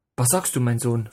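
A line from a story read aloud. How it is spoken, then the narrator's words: Plain question. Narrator (German): fragte mein Vater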